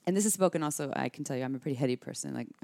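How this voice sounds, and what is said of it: Talking very fast. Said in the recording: “I'm talking really fast right now. You can tell”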